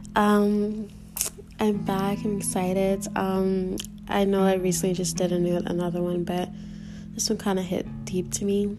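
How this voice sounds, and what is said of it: Sad, emotional-sounding voice. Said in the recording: “if I sound a little sad, I'm emotional”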